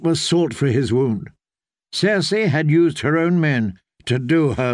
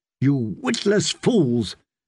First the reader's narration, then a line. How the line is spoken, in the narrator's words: Jamie had snarled